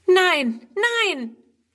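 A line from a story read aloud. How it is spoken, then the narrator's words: Horrified cry. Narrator (German): ruft Friedrun entsetzt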